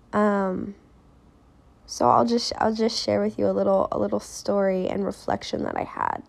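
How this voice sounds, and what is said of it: Raspier voice than usual. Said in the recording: “my voice is a little more raspy than normal”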